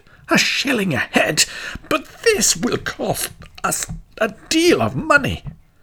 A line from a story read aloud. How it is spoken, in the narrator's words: the people of Hameln heard of the bargain, they too exclaimed